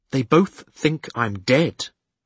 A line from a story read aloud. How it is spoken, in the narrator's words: I pointed out to her, my voice harsher than I'd intended